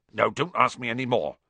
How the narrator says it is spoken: said Hagrid gruffly

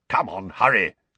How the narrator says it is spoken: growled Moody

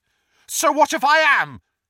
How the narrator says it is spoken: said Neville loudly

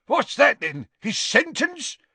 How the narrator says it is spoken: said Gaunt, his voice rising angrily

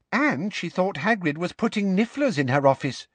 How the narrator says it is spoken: piped up Katie Bell

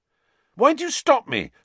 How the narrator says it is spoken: said Ron angrily

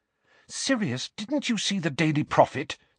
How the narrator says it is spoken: said Hermione anxiously

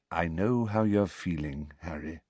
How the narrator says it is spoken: said Dumbledore very quietly

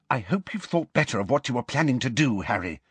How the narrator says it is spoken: Hermione whispered

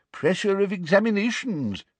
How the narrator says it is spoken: said the old wizard sympathetically

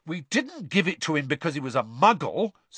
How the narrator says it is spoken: said Fred indignantly

